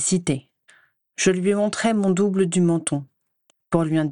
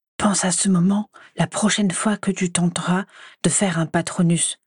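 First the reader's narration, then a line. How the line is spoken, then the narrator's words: Mischievous whisper. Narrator (French): souffla-t-il, les yeux pétillants de malice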